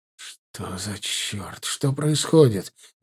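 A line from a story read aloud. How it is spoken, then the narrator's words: Confused whisper. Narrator (Russian): непонимающе зашептал Вова Паулоскус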